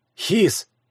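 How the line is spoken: Soft call. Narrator (Russian): негромко позвал я

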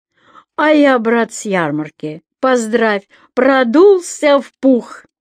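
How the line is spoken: Loud and expressive. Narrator (Russian): Ваня начал громко с выражением

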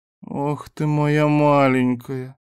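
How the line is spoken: Smiling moan. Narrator (Russian): с улыбкой простонал Виту

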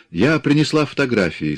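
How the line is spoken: Cheerful. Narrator (Russian): сказала весело

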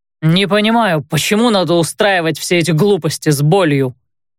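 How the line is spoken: Emphatically loud declaration. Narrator (Russian): подчеркнуто громко заявил Рэй

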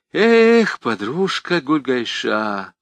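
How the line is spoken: Sighing. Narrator (Russian): вздохнула

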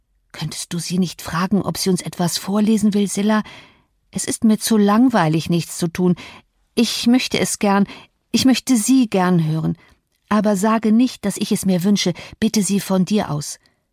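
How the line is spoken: Whisper. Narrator (German): flüsterte

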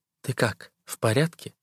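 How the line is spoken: Quiet question. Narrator (Russian): тихо спрашивает

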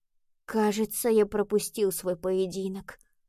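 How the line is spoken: Mutter. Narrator (Russian): пробормотал Пабло

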